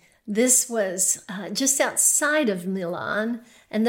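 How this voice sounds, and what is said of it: Usual voice. Nothing is said of it.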